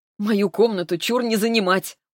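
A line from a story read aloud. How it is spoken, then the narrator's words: Smiling with a chuckle. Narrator (Russian): улыбнулась я и даже хохотнула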